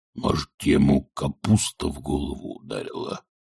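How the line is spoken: Whispered. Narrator (Russian): шепнул гребень асфальту

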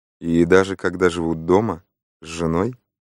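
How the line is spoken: Quiet remark. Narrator (Russian): негромко заметил мисс Марпл

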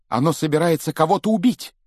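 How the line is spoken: Shouting. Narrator (Russian): крикнул он

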